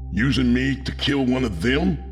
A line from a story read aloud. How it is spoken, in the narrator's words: I screamed in desperation